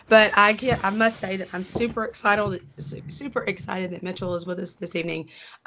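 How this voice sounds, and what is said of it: Voice sounds impaired, unwell. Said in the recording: “is struggling with a voice problem today ... I feel better than my voice sounds”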